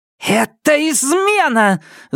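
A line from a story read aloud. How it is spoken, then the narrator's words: Shouting. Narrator (Russian): закричала Сизин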